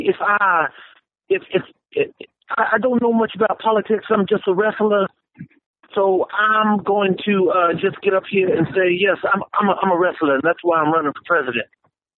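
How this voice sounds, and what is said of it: Dusty Rhodes impression. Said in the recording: “I should probably do the Dusty Rhodes voice.”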